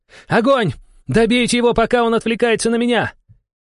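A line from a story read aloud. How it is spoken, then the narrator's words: Furious shout, woman. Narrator (Russian): женщина яростно выкрикнула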